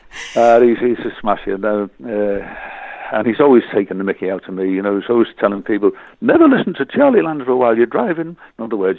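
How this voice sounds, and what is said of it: Regional accent from up north. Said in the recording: “I can hear that wonderful accent that you've got going on up there.”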